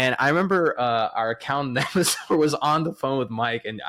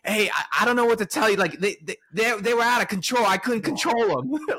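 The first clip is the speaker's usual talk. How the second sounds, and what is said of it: Imitates another person's voice, bad accent. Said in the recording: “this is probably a bad accent”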